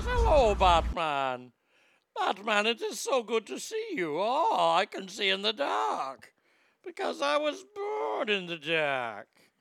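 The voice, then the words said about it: Bane villain character voice. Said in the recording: “Gotta love the Bane character voice.”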